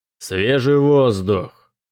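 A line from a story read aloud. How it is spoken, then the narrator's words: Loud. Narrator (Russian): громко сказал он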